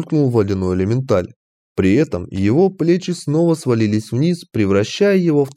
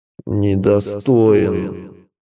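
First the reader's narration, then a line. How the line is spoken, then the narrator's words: Creaky unpleasant voice, ice elemental. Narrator (Russian): проскрипел противным голосом ледяной элементаль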